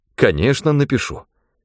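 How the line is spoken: Trembling voice. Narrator (Russian): Я сказал дрожащим голосом

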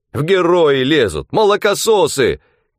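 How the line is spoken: Shouting, fat man. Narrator (Russian): кричал толстый

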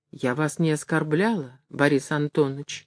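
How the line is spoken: Timid remark. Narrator (Russian): робко заметила она

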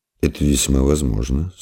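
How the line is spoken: Calm fatherly voice. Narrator (Russian): спокойно промолвил отец

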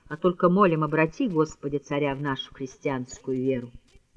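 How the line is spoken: Quiet, as if to herself. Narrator (Russian): проговорила она тихо, точно про себя

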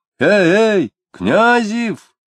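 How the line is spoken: Shouted. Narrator (Russian): закричал Дронов

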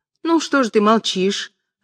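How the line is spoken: Offended question. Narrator (Russian): обиженным тоном спросила прачка

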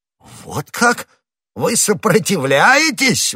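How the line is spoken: Exclamation. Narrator (Russian): воскликнул де Жуссак

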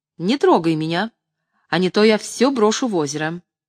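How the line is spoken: Sharp speech. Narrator (Russian): резко сказала

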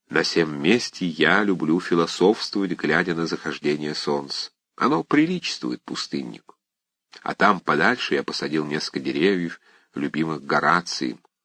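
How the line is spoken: Whispered. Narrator (Russian): он шепнул Аркадию

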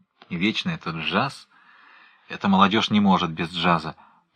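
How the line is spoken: Grumbling to himself. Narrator (Russian): проворчал Пнин про себя

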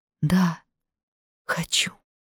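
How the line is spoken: Quiet, smiling. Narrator (Russian): Федя второй раз улыбнулся и тихо сказал

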